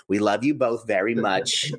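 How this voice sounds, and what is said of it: Old Long Island lady accent. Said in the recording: “speaks like an old lady from Long Island ... I'm glad you nailed the fact that was the accent you invoked there”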